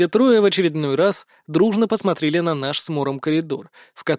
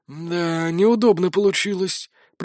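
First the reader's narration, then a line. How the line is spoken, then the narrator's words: Muttered by ghost. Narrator (Russian): пробормотал призрак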